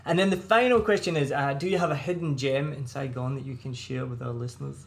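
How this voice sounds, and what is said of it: Strong Scottish accent. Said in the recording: “It's my Scottish accent ... native speakers can't understand me ... a me problem with my accent”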